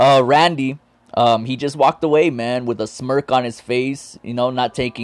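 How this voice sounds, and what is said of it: Usual voice. Nothing is said of it.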